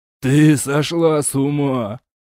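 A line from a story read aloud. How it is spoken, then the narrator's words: Moan. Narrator (Russian): простонал король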